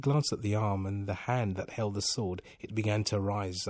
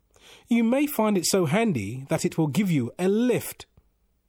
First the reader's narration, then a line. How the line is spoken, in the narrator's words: He called out